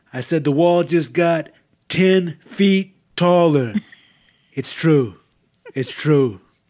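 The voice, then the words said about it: Imitates another person's voice. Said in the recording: “How's my Trump impression? ... pretty good ... You forgot to breathe a few times in between then.”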